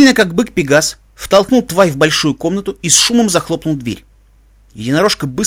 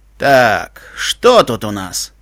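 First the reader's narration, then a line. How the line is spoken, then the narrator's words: Lazy question. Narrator (Russian): лениво поинтересовался землепони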